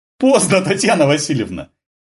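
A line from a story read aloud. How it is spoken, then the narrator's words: Shout. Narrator (Russian): крикнул Дениска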